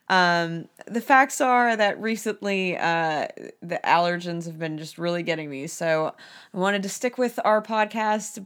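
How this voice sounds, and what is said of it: Hoarse voice. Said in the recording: “today my voice is hoarse... my voice is definitely not as pleasant”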